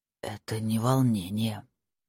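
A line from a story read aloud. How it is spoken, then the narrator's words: Muffled, flat. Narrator (Russian): сказал он глухо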